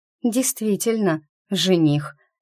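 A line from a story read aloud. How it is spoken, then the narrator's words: Slightly confused mutter. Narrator (Russian): немного растерянно пробормотала она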